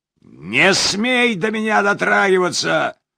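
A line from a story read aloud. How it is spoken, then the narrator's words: Strong commanding shout. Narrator (Russian): Неожиданно сильным повелительным голосом крикнул Темпл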